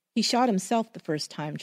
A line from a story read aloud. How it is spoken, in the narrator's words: Charlie said